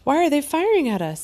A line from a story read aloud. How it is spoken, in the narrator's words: I cried